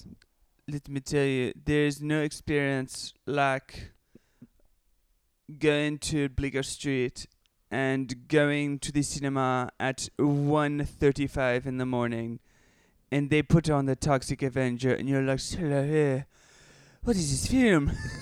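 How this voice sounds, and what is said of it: Put-on French accent. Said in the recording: “should I do, like, a French accent? ... that was one of your better French accent”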